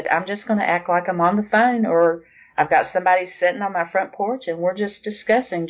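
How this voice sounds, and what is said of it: Southern American accent. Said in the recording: “people don't think I talk funny. You know, I've got a southern accent.”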